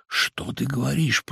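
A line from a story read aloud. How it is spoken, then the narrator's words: Surprised muttering. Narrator (Russian): пробормотал Самойленко, поднимаясь с удивлением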